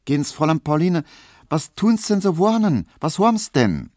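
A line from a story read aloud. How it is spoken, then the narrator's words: Concerned question. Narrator (German): Auf das Schluchzen von Pauline kam Poldi Nowotny angelaufen und fragt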